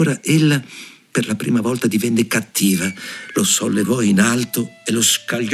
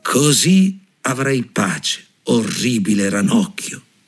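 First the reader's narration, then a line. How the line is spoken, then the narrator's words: Plain. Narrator (Italian): disse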